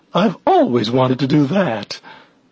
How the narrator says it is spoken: said happily

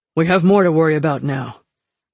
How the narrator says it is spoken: Fox said grimly

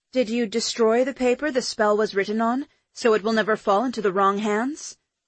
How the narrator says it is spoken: I asked, keeping my voice level, professional

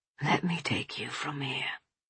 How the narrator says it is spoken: William whispers

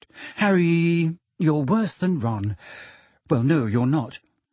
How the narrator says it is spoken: she sighed

